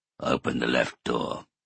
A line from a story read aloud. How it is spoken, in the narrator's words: he said in a low voice